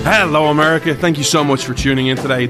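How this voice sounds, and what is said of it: Irish accent. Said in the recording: “Irishman ... you come for the accent”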